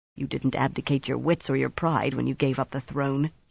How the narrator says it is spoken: he muttered

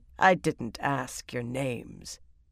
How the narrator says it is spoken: Taim cut in coldly

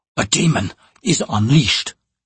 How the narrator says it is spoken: he hissed

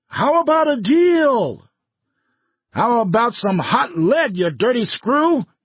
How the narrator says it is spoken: he screamed at Finner

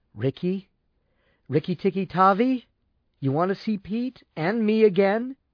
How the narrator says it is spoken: answered unsteadily

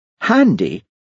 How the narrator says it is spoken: exclaimed Hamish

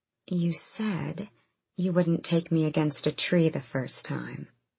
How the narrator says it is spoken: she breathed

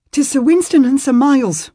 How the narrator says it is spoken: the man said breathlessly

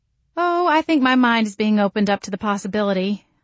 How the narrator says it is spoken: I said dryly

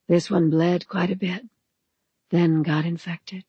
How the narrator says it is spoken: said in her sweetly husky voice

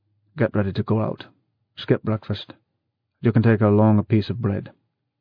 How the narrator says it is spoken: smiled grimly, and said

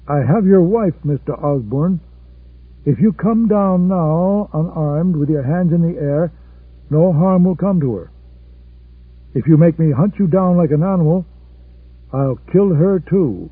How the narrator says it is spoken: He called out

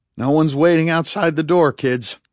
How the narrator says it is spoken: he said dryly

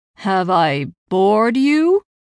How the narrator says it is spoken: He drawled loudly

